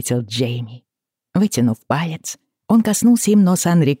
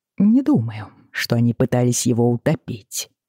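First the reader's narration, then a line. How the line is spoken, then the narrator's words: Soft remark. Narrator (Russian): мягко заметил Джейми, все еще погруженный в игру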